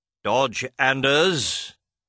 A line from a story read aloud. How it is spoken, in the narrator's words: bellowed Sir Justice